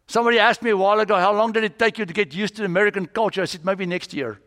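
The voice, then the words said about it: Foreign accent in English. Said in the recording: “I've got this accent, almost working on it”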